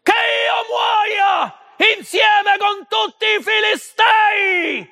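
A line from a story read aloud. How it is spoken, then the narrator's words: Shouting. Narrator (Italian): urlò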